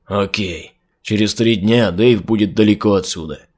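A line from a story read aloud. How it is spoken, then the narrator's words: Grumbled reply. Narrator (Russian): буркнул в ответ Эл Круз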